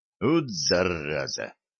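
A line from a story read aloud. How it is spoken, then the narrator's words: Groan. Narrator (Russian): простонал он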